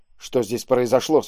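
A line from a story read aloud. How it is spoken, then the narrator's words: Plain. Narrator (Russian): спросил он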